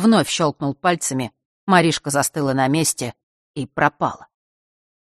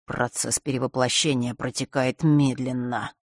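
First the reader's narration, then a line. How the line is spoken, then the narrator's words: Muttered. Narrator (Russian): пробормотал он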